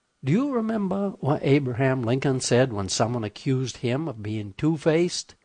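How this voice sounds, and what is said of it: Rural hick-sounding accent. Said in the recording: “didn't like my accent ... the phonological constructs of a hick”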